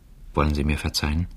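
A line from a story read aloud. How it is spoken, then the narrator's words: Very quiet. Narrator (German): sagte sehr leise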